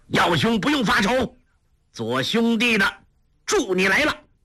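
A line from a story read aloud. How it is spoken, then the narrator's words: Laughing loudly, calling out. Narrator (Chinese): 一人哈哈大笑，叫道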